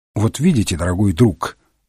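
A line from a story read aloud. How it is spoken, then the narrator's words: Calm remark. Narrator (Russian): спокойно заметил Холмс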